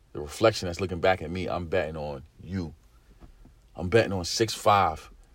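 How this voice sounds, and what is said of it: Deep, raspy voice. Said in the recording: “deep, raspy voice”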